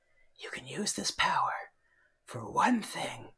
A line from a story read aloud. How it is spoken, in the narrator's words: a whisper in his ear saying